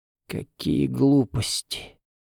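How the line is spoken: Hoarse whisper, held-back sob. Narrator (Russian): вырвался у мамы хриплый шепот, а следом звук, похожий на сдерживаемое рыдание

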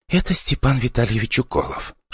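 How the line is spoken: Whispered into ear. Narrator (Russian): шептала мне в ухо репортерша

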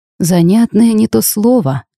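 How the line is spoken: Grim smirk. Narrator (Russian): мрачно усмехнулся Орфей

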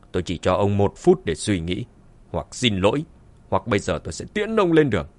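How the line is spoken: Cold. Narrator (Vietnamese): Dương Chấn lạnh lùng

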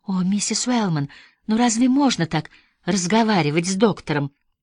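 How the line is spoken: Sighing, faltering babble. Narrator (Russian): Сестра О'Брайен со вздохом пролепетала

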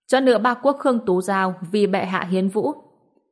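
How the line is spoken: Loud formal call. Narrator (Vietnamese): đại nội hầu quan cao giọng hô

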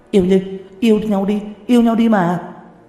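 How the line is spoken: Group loudly yelling. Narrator (Vietnamese): Một đám hổ nữ hét to

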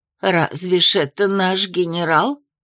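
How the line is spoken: Dazed muttering. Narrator (Russian): Оторопело бормотала Анисия

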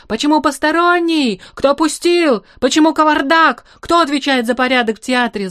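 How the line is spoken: Yelling. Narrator (Russian): заорал он

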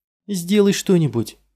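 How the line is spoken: Shouted. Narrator (Russian): крикнула она Дорину

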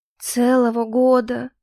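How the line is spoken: Dejected voice. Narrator (Russian): упавшим голосом произнесла

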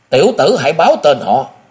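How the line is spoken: Wounded youth's anguished scream. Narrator (Vietnamese): ngực áo thiếu niên đã bị thấm máu, hăng thảm thiết gào lên

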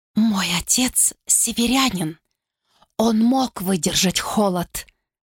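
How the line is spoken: Trembling whisper. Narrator (Russian): прошептала Глориан, голос ее чуть вздрагивал

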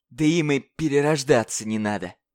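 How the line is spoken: Hateful rasp. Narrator (Russian): с ненавистью прохрипел клиент

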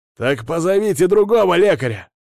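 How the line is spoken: Barked. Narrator (Russian): рявкнул на конвоиров мужик

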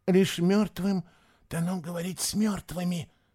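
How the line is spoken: Whispered repetition. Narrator (Russian): повторил шепотом

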